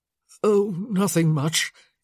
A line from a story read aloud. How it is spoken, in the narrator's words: he croaked